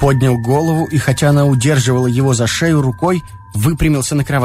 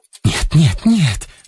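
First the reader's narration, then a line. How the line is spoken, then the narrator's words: Urgent pleading whisper. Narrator (Russian): заговорила горячим, поспешным, умоляющим шепотом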